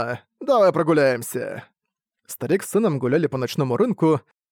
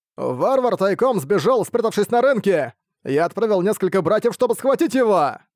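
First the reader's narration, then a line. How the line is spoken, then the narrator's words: Monk's excited shout. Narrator (Russian): Какой-то монах взволнованно прокричал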